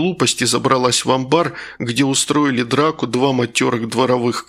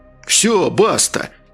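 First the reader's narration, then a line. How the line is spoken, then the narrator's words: Exclamation. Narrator (Russian): воскликнул комиссар Пфуй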